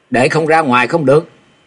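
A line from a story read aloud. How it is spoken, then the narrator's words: Loud roar. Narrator (Vietnamese): Thạch Mộng gầm to lên nói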